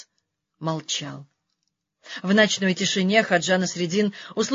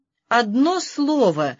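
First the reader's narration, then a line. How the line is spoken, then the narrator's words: Alarmed exclamation. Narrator (Russian): в тревоге воскликнул Хаджа Насреддин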